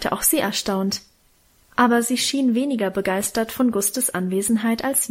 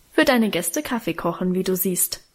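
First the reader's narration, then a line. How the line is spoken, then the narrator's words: Plain. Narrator (German): antwortete Guste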